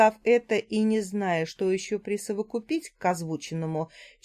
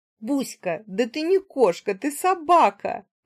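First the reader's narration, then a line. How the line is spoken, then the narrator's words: Laughing loudly. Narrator (Russian): расхохоталась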